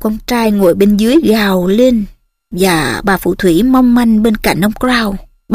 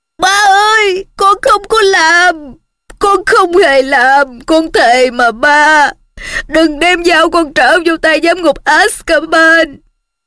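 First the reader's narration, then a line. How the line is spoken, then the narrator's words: Bound boy screaming. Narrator (Vietnamese): Cậu trai bị trói chặt trên cái ghế dưới kia thét lên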